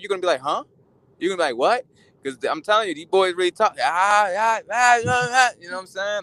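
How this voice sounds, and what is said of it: Baltimore accent. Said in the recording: “some people tell me I have a strong Baltimore accent, but it ain't nothing compared to, you know, it's a lot of guys with that dialect that's very strong”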